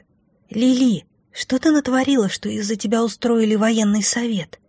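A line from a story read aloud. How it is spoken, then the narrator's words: Whisper from aside. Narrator (Russian): Прошептали с другой стороны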